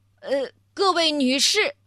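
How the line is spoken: Loud. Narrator (Chinese): 他…大声地说

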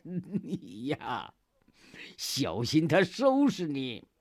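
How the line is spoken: Suppressing laughter. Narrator (Chinese): 忍笑

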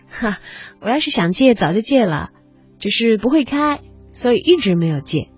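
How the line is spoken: Laughing. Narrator (Chinese): 田青青笑着说

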